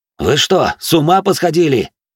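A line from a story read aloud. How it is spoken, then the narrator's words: Exclaimed. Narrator (Russian): воскликнул Минос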